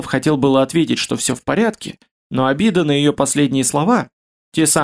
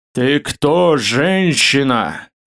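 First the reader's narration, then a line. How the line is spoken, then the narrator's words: Strained deep bass, commanding, irritated. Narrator (Russian): Густым басом, немилосердно дравшим горло, произнес он, стараясь по максимуму придать голосу властной и раздраженной интонации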